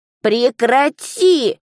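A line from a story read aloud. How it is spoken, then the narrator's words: Pleading monster cry. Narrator (Russian): умоляюще воскликнуло чудовище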